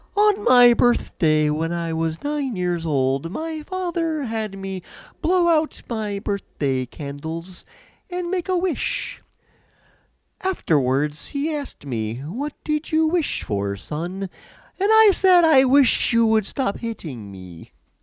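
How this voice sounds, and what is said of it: Comedic emo-style impression voice. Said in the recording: “I want to do my impression ... You can't do an emo joke without doing emo voice”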